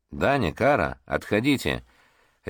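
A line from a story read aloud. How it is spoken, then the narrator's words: Quiet command, small child. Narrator (Russian): тихо прозвучал приказ малыша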